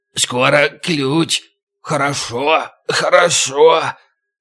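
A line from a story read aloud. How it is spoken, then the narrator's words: Lively muttering. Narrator (Russian): Оживший Така забормотал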